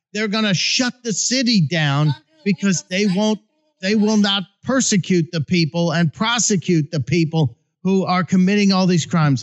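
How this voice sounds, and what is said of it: Yelling, raised angry voice. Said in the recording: “I'm sorry, I'm yelling.”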